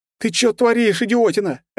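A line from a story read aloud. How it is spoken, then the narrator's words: Yelling. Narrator (Russian): опять заорал на меня Диман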